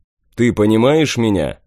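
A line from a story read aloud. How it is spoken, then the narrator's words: Moderate shout. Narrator (Russian): Не слишком громко крикнул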